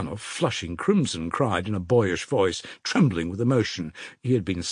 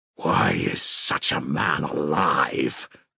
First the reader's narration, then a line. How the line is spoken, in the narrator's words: Dmitri, beside himself with rage, growled in a hollow voice